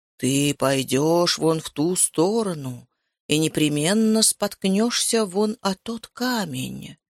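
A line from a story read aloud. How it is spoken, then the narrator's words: Otherworldly voice. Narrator (Russian): произнес потусторонним голосом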